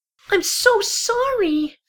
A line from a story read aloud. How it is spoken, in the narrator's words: squeaked the filly